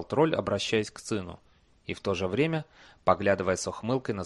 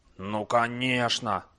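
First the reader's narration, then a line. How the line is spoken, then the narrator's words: Stern. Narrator (Russian): строго произнес Слюда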